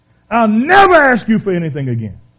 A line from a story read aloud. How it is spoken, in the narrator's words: he shouted, he shouted out in the hospital